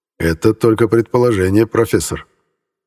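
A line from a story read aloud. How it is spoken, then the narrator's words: Calm reply. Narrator (Russian): спокойно ответил я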